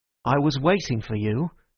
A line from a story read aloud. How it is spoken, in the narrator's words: said Gregory